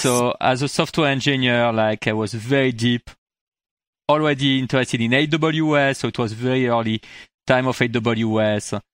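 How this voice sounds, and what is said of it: French accent. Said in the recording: “I moved in the US like 14 years ago, actually, from France. You heard it from my accent.”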